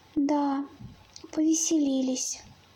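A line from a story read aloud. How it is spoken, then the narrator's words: Calm. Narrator (Russian): спокойно произнес еж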